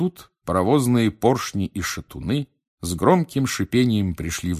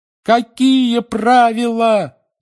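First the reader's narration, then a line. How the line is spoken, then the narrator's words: Yelling in unison. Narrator (Russian): завопили Гарри, Рон, Фред и Джордж одновременно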